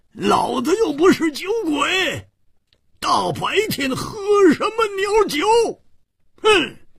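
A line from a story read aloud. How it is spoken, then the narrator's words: Angry loud roar. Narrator (Chinese): 胡铁花更是满肚子的怨气没处发，大声地吼叫着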